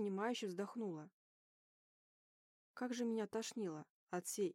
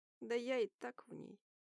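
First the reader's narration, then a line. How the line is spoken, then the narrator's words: Grumbled. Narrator (Russian): буркнул Рид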